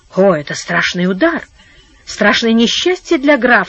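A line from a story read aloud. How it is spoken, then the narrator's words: Thoughtful, grave. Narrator (Russian): сказал герцог, задумчиво качая головой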